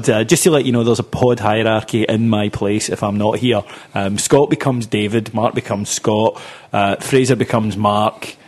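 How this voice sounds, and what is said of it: Voice of someone with a cold. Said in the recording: “I've got a bit of a cold”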